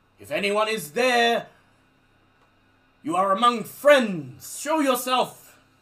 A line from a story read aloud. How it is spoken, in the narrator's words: they shout out in French